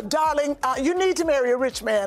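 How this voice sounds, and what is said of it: Posh accented imitation of a mother. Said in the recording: “I gave her that accent. That's how she talks... Bridgerton?”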